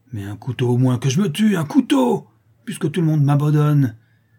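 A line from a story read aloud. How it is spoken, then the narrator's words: Savage, furious shouting. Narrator (French): cria le misérable en se mordant les poings avec une furie sauvage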